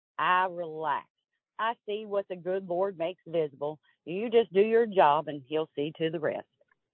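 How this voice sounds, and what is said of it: Kentucky accent. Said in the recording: “your Kentucky accent ... you spoke it in your Kentucky accent”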